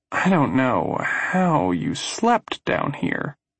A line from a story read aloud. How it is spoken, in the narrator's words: mumbles